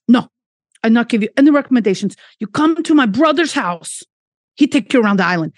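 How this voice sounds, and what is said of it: Imitated broken-English Portuguese accent. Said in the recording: “he's got kind of broken English. And it turns out he's from Portugal... this is not going to be a good accent... this probably come out the wrong country... I'm just not good at accents”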